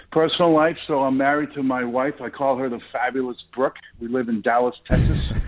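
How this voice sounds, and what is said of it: Boston accent. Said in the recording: “You probably can hear that Boston accent in my voice. Born and raised in Boston, Massachusetts.”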